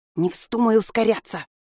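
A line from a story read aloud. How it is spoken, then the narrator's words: Hiss. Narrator (Russian): шипела она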